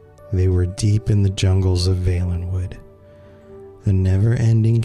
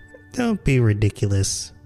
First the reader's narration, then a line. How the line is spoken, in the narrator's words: laughed the Bosmer unconvincingly